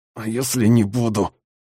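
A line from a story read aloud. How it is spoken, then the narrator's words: Muffled through tape. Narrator (Russian): попытался выдавить я сквозь скотч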